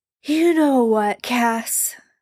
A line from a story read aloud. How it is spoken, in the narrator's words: Sam slurred later that evening